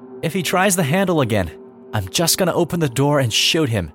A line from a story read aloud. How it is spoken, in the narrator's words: My mom loudly said